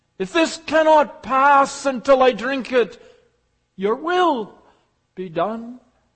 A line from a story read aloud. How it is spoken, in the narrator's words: He cried